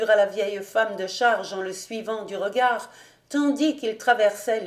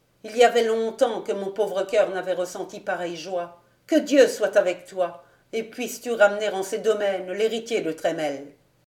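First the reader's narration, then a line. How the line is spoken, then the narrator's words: Sad, doubtful. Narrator (French): Goton avait plus de désir que d'espérance, car elle secoua tristement la tête en prononçant ses dernières paroles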